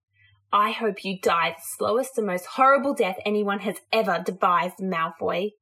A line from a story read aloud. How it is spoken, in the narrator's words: immediately snarled in her mind